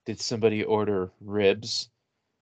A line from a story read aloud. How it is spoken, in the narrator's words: under my breath, I <laughs> I had her in my voice going